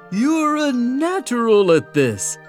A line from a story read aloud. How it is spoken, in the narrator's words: I chuckled, my belly shaking like a bowl full of jelly